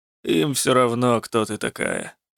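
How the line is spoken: Grumbling. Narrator (Russian): проворчал Рук

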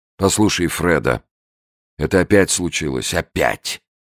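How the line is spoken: Gloomy. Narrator (Russian): сказал он мрачно

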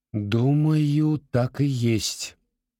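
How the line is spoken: Slow. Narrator (Russian): медленно сказала

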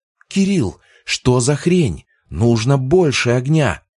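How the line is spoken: Exclaim. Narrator (Russian): воскликнула Яра

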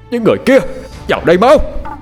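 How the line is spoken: Barked shout. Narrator (Vietnamese): Tiếng quát của Cổ Phong

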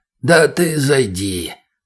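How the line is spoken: Very hoarse voice. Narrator (Russian): До неприличия хриплым голосом ответил тот

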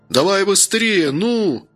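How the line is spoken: Urgent shout. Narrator (Russian): кричал Гордей

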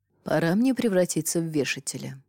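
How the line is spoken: Barely audible whisper. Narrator (Russian): чуть слышно прошептал первый министр

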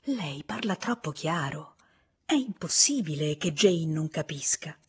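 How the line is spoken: Whispered. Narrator (Italian): sussurrargli

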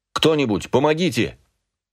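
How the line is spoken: Shouted. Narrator (Russian): крикнул я

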